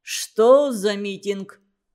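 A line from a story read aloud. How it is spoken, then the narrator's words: Deep bass question. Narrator (Russian): басом спросил он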